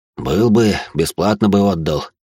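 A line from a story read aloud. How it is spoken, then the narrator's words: Heavy sigh, village elder. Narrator (Russian): тяжело вздохнул староста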